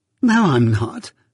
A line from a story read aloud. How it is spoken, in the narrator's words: said Biddy, laughing